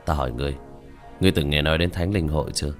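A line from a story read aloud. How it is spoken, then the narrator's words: Smiling. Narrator (Vietnamese): Diệp Thiếu Dương mỉm cười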